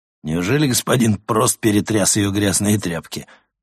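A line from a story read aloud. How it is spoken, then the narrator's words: Mocking official. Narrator (Russian): насмешливо произнес исправник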